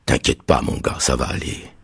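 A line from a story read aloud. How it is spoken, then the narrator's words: Whispered reply. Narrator (French): m'a répondu Magden en chuchotant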